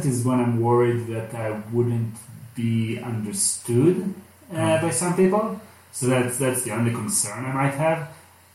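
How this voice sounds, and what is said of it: Foreign accent. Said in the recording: “I like having an accent ... I wish it was a sexier accent ... maybe Freudian kind of sounding”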